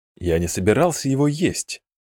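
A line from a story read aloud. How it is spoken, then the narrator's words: Wincing mutter. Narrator (Russian): морщась пробормотал Мидриен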